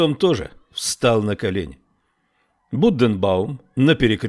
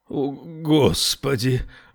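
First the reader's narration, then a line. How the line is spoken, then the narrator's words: Breathless, trembling voice. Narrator (Russian): выдохнул он, и голос его задрожал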